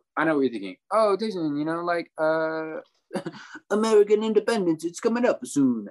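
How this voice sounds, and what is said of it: Put-on Italian accent. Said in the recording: “He says in an Italian accent.”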